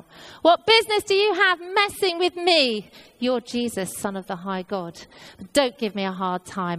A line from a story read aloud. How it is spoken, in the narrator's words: the demons start shouting out